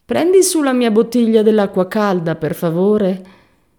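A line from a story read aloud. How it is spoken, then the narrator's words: Whiny speech. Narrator (Italian): Benford, piagnucolosa, disse a March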